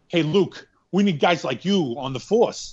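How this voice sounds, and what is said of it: Imitation of Chris's voice. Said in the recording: “do that in Chris voice”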